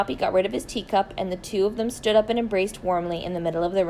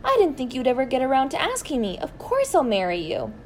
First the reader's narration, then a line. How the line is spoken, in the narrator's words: cried